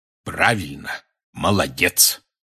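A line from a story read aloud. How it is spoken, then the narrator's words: Solemn. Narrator (Russian): торжественно произнес Хагрид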